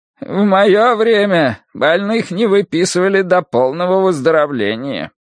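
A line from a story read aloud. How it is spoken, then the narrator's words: Creaky voice. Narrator (Russian): он проскрипел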